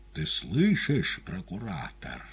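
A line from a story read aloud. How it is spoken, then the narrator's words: Quiet repetition. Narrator (Russian): тихо повторил первосвященник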